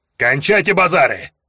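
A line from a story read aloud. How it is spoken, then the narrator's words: Barking female orc. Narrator (Russian): Рявкнула орка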